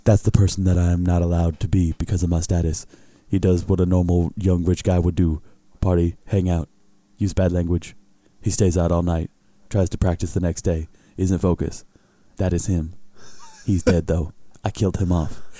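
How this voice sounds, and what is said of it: Bad Shaquille O'Neal impression. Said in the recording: “a bad Shaq impression, arguably worse than his free throw attempts”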